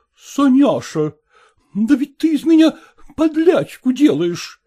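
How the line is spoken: Exclamation. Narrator (Russian): воскликнула Манефа Мартыновна

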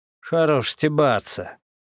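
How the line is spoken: Through gritted teeth. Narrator (Russian): вынужден был процедить я

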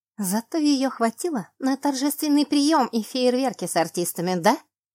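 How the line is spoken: Angry hiss. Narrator (Russian): Злобно прошипела я

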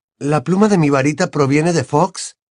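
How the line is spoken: Surprised exclamation. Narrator (Spanish): exclamó Harry, sorprendido

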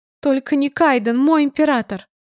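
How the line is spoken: Loud sobbing. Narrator (Russian): громко рыдает распорядительница отбора, угодившая в собственную ловушку

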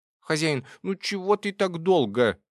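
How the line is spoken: Indignant squeak. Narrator (Russian): возмущенно пискнул он

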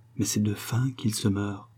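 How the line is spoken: Softly to herself. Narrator (French): elle se dit tout bas

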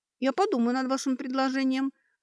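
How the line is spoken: Confused, at a loss. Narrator (Russian): растерянно склонила голову Сашка

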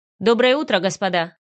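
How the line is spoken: Calm and stern. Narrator (Russian): Спокойно и строго произнес незнакомец

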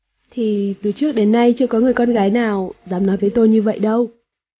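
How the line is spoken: Moved, raised voice. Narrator (Vietnamese): Đường Ca Nam cảm thấy xúc động, cao giọng

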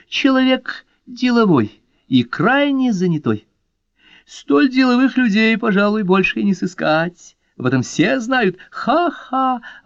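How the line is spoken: Loud shaking laughter. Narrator (Russian): захохотала, дрожа всем телом

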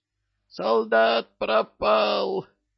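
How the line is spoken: Nurse shrieking. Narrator (Russian): Визжала медсестра

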